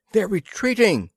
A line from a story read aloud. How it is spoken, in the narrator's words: cried